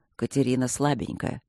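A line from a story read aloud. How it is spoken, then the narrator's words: Calm objection. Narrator (Russian): спокойно возразил Свидерский ему в спину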